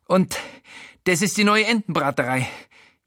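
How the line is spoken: Gasping. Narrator (German): japst

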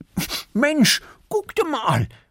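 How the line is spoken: Called out. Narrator (German): ruft Erik

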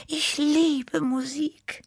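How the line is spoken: Sigh. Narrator (German): seufzte Tibi

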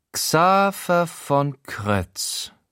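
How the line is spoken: Slow voicing while typing. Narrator (German): vertont Schober die Treffer ihrer Finger auf der Tastatur, als sie elend langsam den Namen in die Suchmaschine eintippt

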